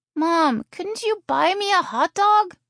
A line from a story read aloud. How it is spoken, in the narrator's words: She whined